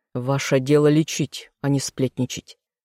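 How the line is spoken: Curt, stern. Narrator (Russian): отрезал Тьер Мортон с таким суровым тоном

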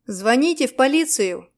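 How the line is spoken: Shout. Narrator (Russian): крикнул я

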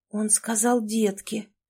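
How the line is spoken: Muttering. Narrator (Russian): пробормотала Катя

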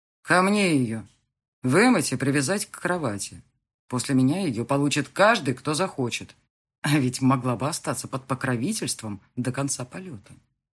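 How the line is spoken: Smirking grunt. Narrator (Russian): хмыкнул

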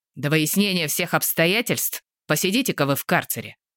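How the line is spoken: Commanding announcement. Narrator (Russian): приказным тоном объявил Дядькин

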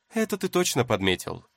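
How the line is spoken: Amused snort. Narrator (Russian): хмыкнул Цзэсюлань

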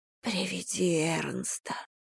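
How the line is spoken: Very faint whisper. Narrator (Russian): прошептала она так тихо, что Фрея едва расслышала просьбу

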